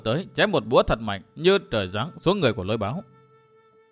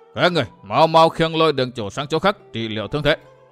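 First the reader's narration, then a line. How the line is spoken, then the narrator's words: Shouting orders. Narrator (Vietnamese): quát thủ hạ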